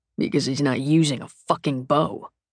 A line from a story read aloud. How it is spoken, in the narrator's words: Dalton mutters